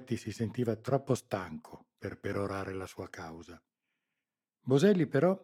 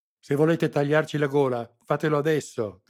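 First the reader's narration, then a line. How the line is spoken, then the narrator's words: Furious spitting shout. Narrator (Italian): gridò sputando saliva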